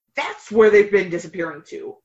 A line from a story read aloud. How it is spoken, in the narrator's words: a mean-looking woman snapped